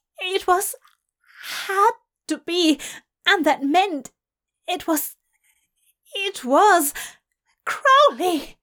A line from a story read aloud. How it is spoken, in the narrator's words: Aziraphale cried out